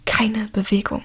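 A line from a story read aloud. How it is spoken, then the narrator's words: Whisper. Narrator (German): flüstert er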